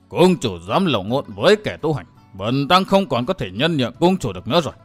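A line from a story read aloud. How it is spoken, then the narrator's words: Monk shouting angrily. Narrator (Vietnamese): Huệ Tịnh Thần Tăng trợn to hai mắt quát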